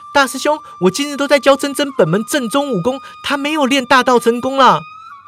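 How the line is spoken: Calling from behind. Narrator (Chinese): 上官明月在身后叫道

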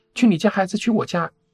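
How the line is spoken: Shouting. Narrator (Chinese): 那些朋友 对我们大喊

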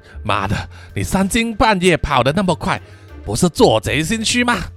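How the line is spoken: Breathless angry scolding. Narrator (Chinese): 阿派一面喘气 骂他说

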